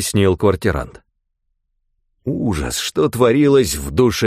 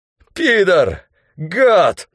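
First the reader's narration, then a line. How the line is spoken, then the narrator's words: Hoarse wheezing. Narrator (Russian): хрипел Спирка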